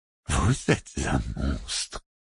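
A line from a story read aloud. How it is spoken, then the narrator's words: Moaning, breaking into sobs. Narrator (French): gémit Dame Sibrit dont la voix se brisa en sanglots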